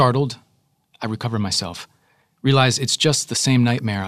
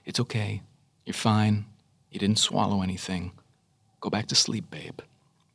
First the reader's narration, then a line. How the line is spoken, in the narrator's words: says gently